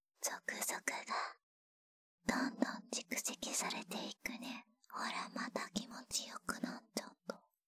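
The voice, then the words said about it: Whispering. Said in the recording (Japanese): “こうやってささやきかけるだけで”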